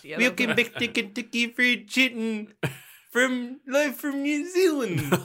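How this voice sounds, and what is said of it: Put-on New Zealand accent. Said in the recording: “do that voice? I'm sorry about that New Zealand accent”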